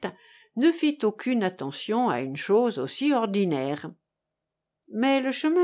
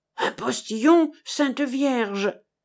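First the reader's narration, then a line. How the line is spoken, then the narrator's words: Old woman exclaiming, interrupting. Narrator (French): s'écria la vieille en interrompant le discours du claque-fouet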